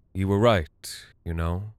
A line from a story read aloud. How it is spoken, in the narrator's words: she said